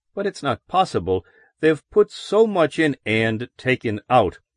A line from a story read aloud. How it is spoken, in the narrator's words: Parsons answered